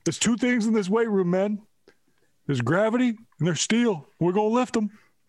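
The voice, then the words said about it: Imitates another person's voice. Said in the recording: “That was my Shep impression.”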